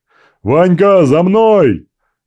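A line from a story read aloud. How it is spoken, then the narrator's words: Full-force shout, voice breaking. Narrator (Russian): Вновь со всей силы прокричал, сорвав горло Иван Яковлевич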